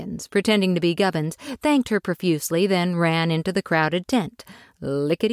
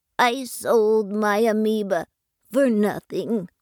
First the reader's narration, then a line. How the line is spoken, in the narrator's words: Buggins, pretending to be Gubbins, in a choked up but still articulated voice, said